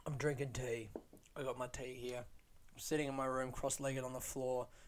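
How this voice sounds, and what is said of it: Hoarse, worn-out tired voice. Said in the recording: “I feel very tired. Listen to my voice. My voice is gone... Oh, my voice is really trashed, isn't it?”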